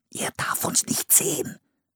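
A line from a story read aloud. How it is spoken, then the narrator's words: Whispered. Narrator (German): flüsterte Philipp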